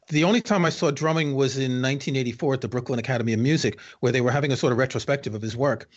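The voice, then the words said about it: New York accent. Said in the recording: “I grew up in New York, as you can tell from my accent.”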